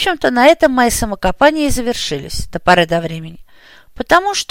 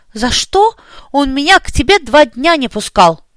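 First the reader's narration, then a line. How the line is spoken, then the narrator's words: Indignant. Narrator (Russian): возмущенно заявила Оля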